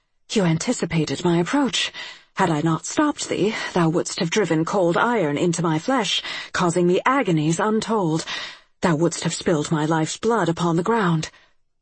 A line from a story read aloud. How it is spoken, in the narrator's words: she breathed